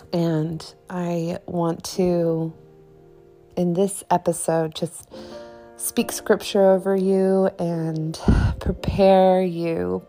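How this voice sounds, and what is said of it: Croaky voice. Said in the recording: “my voice sounds a little croaky ... I have been a little bit under the weather”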